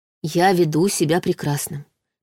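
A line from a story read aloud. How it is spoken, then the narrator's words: Soft reassurance. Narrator (Russian): мягко заверила она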